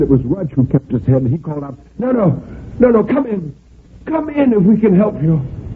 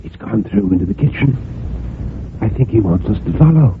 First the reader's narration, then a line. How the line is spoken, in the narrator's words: a whisper from Rudge